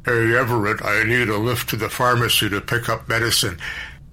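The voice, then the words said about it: Mocking deep voice. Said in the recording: “He mimicked Jack's deep voice.”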